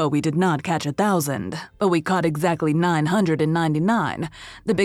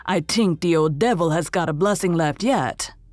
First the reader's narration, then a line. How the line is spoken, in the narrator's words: growled Andrew